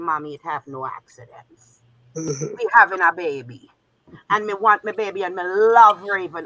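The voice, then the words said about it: Put-on Jamaican accent. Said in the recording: “Wait, this is a Jamaican or a Trini? ... Jamaican. ... I heard the accent switch.”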